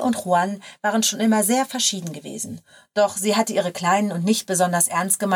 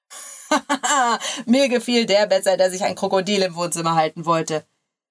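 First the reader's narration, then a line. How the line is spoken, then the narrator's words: Laughing reply. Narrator (German): entgegnete er lachend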